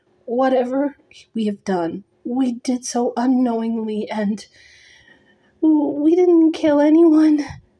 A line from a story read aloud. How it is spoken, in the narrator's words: Nesta added, choking on her sobs